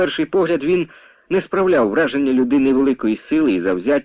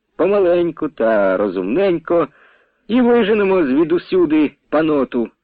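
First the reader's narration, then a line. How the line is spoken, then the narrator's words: Calm, measured. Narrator (Ukrainian): Казав спокійно, розважливо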